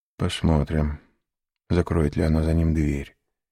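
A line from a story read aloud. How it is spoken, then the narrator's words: Muttered. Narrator (Russian): пробормотал он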